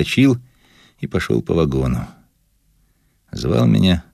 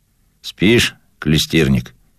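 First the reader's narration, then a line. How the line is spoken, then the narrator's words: Calm, without mockery. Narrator (Russian): спросил он меня спокойно, без насмешки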